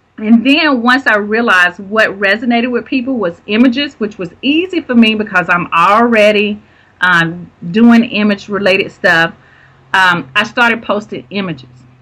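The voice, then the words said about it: Strong Southern US accent. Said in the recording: “I know I have a Southern accent that is just like, whoa ... sounding so Southern out there ... because of the Southern accent”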